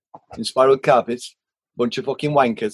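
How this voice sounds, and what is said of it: Imitated Welsh accent. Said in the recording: “in this, you know, beautiful Welsh accent”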